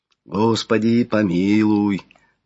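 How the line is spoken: Choir's swelling prayerful exhale. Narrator (Russian): Выдохнул единственным молитвенным вздохом, набирающий силу звучания хор

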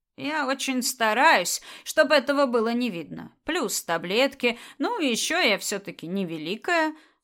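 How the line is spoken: Calm confession. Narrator (Russian): спокойно призналась она

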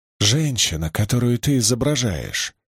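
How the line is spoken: Whispered. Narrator (Russian): шепнула Кэрри

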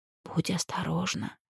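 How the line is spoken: Whisper. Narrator (Russian): прошептали его губы

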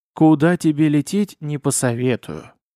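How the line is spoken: Plain. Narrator (Russian): говорит мне Урфин

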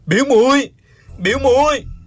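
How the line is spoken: Loud anguished cry. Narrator (Vietnamese): Uông Khiếu Phong nằm trên mặt đất, gào to

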